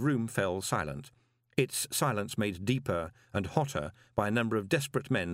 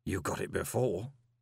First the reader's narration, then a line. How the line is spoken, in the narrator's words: murmured Gilt